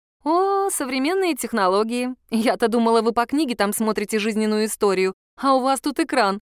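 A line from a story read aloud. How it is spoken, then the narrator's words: Giggling. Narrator (Russian): хихикнула я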